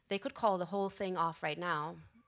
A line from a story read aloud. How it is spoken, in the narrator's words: Martin said evenly